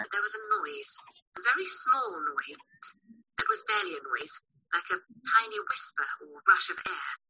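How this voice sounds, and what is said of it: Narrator with an accent. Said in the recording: “Anything with an accent, I'm pretty sure there. So she's got an accent.”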